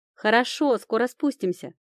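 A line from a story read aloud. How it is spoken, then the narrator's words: Shout. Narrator (Russian): крикнула Камила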